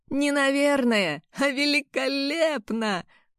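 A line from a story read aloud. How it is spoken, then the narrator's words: Laughing. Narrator (Russian): Он рассмеялся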